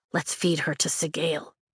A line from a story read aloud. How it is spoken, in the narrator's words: Rhiannon whispers